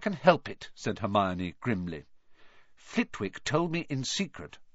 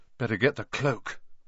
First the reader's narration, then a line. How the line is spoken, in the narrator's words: Ron muttered